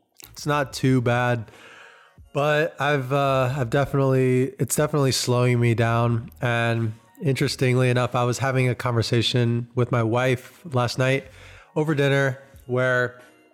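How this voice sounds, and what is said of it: Sick, under-the-weather voice. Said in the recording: “I don't know if you guys can hear it in my voice, but I'm under the weather, battling a cold.”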